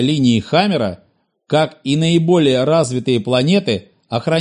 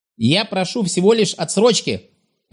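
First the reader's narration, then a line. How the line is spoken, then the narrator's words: Sharp objection. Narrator (Russian): резко возразил Гесао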